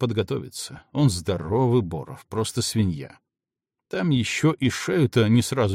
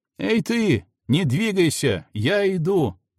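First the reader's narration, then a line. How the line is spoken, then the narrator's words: Shouting. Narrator (Russian): закричал Макс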